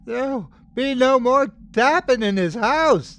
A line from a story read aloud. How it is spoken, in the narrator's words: yelled in a terrible, trembling voice